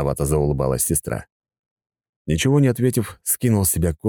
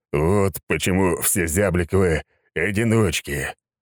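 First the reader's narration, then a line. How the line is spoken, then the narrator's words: Groaning. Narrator (Russian): простонал я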